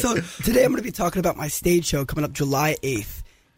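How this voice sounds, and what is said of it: Hoarse, strained voice. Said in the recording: “I lost my voice today”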